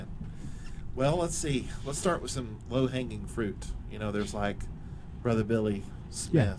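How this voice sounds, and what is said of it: Usual voice. Nothing is said of it.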